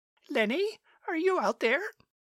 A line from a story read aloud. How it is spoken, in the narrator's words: a woman's voice called out